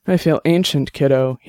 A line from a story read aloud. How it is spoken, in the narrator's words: he said, sighing deeply